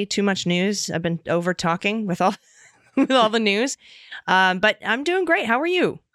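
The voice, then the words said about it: Slightly raspy voice. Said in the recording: “My voice is still a little bit raspy.”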